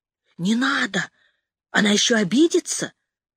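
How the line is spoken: Someone's whisper. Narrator (Russian): услышала я чей-то шепот

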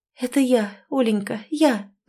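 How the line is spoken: Sad, smiling. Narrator (Russian): закивала Ирина, печально улыбаясь

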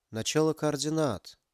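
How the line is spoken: Whisper. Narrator (Russian): прошептал Ярик

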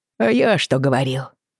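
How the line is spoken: Snort. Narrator (Russian): хмыкнул его близнец

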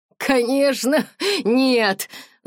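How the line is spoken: Laughing. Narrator (Russian): засмеялся

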